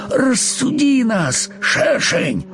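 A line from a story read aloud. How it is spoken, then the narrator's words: Pleading. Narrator (Russian): взмолился муравьишка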